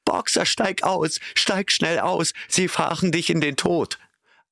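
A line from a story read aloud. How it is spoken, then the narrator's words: Terrible, desperate cry. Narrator (German): rief Clover mit schrecklicher Stimme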